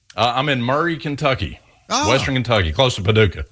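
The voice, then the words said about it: Southern American accent. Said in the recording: “clearly a Southern gentleman. You have a beautiful accent.”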